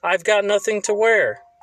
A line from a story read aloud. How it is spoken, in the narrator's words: Frankenstein's bride cried